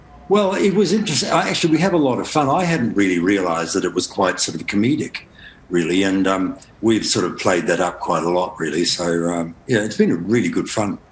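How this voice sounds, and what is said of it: New Zealand accent, somewhat English-sounding. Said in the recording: “I've got a Kiwi accent or a Kiwi Australian accent that sort of sounds like an English accent”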